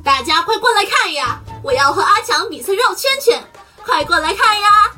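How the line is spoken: Loud shout. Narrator (Chinese): 皮皮大声喊

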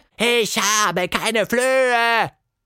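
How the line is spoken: Roaring giant mouse. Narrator (German): brüllte eine riesige Maus

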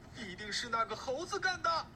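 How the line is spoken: Shouting. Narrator (Chinese): 一个道士大叫

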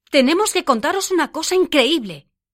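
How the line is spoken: Group exclaiming together. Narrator (Spanish): todos exclamamos a la vez

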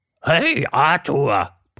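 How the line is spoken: Roar. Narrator (German): brüllte

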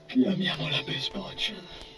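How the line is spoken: Murmured reply. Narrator (Italian): mormorò poi in risposta

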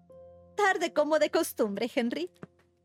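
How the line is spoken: Aunt exclaiming. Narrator (Spanish): exclamó su tía

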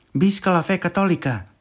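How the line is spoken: Man shouting. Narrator (Catalan): va cridar un home

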